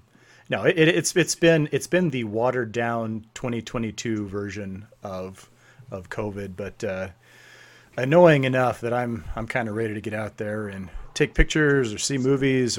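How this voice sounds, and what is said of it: Husky voice. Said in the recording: “why my voice sounds a little more husky than usual”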